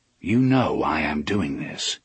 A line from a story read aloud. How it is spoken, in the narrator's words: he said calmly